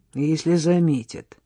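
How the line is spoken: Gloomy remark. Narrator (Russian): мрачно добавил Егор

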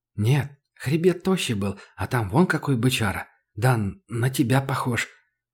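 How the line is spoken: Surprised mutter. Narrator (Russian): удивленно пробормотал китаец

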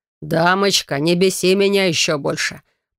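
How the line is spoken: Icy, harsh tone. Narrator (Russian): Произносит он таким ледяным и жестким тоном

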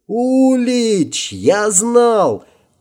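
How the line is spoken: Joyful shout. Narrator (Russian): кричал Герман де Мирт, сияя улыбкой

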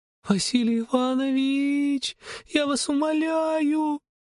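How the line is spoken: Muffled sobbing. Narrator (Russian): Рыдала она, уткнувшись мне в плечо

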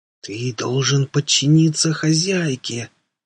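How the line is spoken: Hissed reply. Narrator (Russian): прошипел он в ответ

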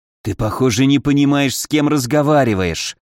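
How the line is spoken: Angry hiss. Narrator (Russian): явно закипая, прошипел Павлин

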